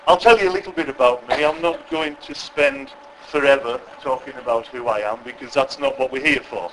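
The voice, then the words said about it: West Cumbrian English accent. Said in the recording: “you okay with my accent? ... I'm from West Cumbria, so that's where the accent is.”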